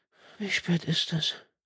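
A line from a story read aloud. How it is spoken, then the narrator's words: Muffled mumble into pillow. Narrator (German): murmelte Karin ins Kissen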